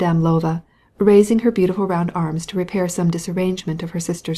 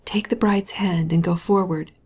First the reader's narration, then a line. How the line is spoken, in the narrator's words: whispered his best man